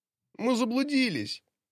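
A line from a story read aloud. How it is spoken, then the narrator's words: Whimpering. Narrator (Russian): Мала хныкала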